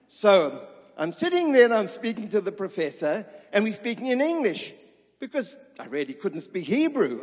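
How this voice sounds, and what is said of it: English accent. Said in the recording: “my English accent. You know, it's a kind of a different kind of accent.”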